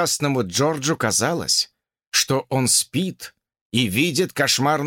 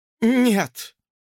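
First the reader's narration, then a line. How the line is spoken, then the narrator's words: Breathed out. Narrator (Russian): выдохнула Фанни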